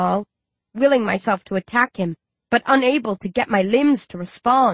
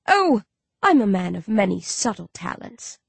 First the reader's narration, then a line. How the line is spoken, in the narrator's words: our man says with a wicked chuckle